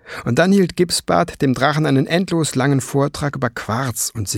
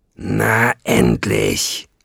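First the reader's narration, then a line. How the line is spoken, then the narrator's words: Growling. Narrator (German): knurrte Nesselbrand Fliegenbein an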